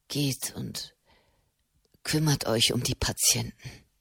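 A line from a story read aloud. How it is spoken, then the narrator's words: Murmuring. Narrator (German): murmelte Matteo Cenni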